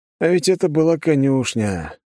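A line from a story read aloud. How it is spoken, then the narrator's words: Sad sigh. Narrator (Russian): грустно вздохнул я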